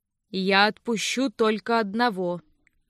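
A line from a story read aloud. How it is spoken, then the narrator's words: Even voice. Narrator (Russian): ровным голосом сказал он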